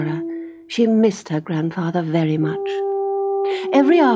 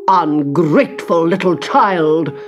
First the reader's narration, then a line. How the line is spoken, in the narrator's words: boomed the governess